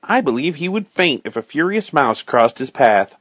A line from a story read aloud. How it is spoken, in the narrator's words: cried Robin